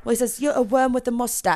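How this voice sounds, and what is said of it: Put-on British accent, well done. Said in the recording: “Your British is really good ... I should be better than whatever your accent is, but you're rocking it.”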